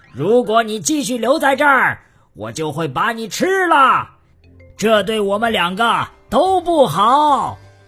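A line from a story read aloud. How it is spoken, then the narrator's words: Loud shouting. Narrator (Chinese): 他大声喊着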